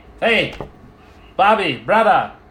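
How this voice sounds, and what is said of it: Loud yelling voice. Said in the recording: “why are you yelling? ... I got loud vocal cords.”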